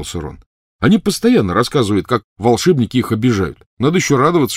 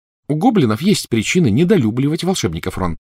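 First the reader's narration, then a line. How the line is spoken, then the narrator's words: Plain. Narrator (Russian): сказала Гермиона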